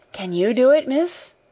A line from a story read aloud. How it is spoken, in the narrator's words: faltered Becky, regarding her with admiring eyes